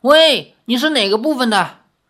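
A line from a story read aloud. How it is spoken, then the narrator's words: Loud shout. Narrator (Chinese): 船上的人 大声的喊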